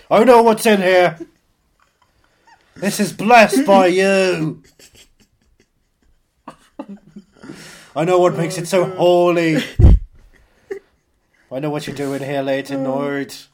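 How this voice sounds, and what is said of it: Broad put-on Irish accent. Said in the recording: “My Irish accent's getting a bit too broad ... I'll stick with the Irish accent”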